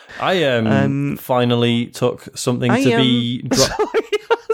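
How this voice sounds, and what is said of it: Put-on Manchester accent. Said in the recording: “I was doing my Manchester accent.”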